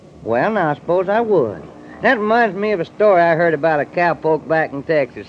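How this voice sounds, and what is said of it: Texan accent. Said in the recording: “do you ever get tired of that accent? ... I just talk the way folks talk in Texas ... That's Texas talk”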